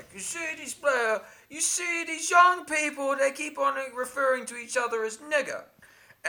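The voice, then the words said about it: Bill Cosby impression. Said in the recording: “I'm doing an impression of him saying a direct quote”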